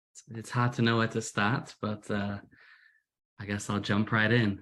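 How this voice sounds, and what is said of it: British Manchester accent, slightly Americanized. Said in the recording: “as you can hear from my accent, British. I'm originally from Manchester. My accent's become a little American recently.”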